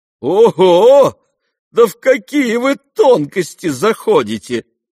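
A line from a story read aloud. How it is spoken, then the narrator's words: Laughing. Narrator (Russian): смеялся генерал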